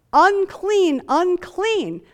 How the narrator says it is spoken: they're shouting out

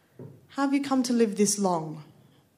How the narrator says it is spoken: asked Bruce

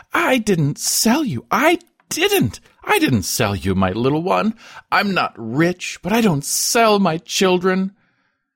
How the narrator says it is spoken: ostentatiously exclaiming as if he understood

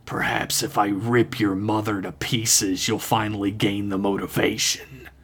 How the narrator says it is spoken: The gurgling voice seemed to laugh as well as it could, then whispered in a rueful hiss

